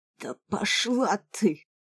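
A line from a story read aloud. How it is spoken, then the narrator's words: Hoarse wheeze. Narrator (Russian): Захрипел Рога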